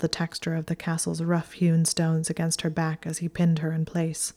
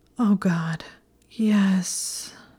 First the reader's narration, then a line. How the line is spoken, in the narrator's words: moaned against his mouth